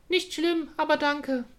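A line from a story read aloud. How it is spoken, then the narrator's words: Squirrel calling out. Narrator (German): rief das Eichhörnchen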